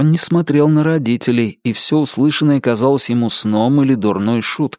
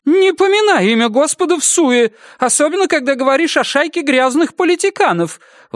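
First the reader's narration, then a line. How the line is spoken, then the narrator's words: Exclaiming. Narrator (Russian): воскликнула Вера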